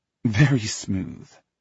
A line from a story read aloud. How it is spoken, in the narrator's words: she laughs